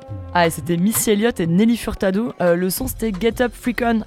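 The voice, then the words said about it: French speaker's English pronunciation. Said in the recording (French): “avec mon super accent anglais”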